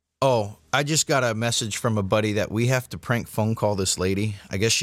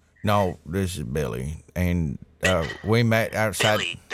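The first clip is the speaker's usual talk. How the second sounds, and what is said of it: Put-on Southern accent. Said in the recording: “I'm going to do a southern accent.”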